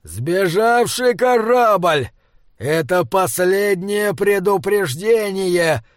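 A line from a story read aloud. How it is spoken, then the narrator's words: Roaring through headphones. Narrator (Russian): взревели наушники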